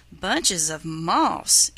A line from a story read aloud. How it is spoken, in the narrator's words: exclaimed Fidget